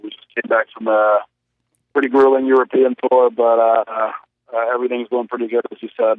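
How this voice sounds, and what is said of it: Slightly raspy sick voice. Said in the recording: “I've been under the weather now, so my voice might be a little raspy ... being a little sick here”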